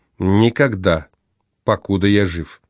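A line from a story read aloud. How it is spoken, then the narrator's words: Solemn. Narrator (Russian): Мартин сказал торжественно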